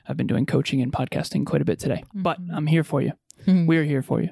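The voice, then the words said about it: Worn-out, slightly strained voice. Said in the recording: “it's a little bit late in the day and my voice is a little bit shot here”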